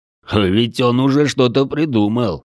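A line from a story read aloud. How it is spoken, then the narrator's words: Short chuckle. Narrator (Russian): хохотнул Дрой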